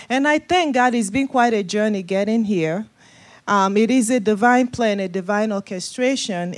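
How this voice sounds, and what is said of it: Nigerian West African accent. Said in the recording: “accent, uh, originally from Nigeria, West Africa. That's the accent you're hearing ... get past the accent”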